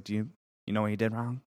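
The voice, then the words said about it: Impression of Coach K. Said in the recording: “I love that Coach K impression”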